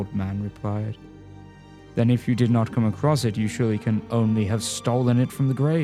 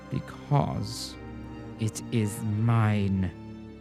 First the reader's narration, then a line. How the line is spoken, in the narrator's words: hissed the old man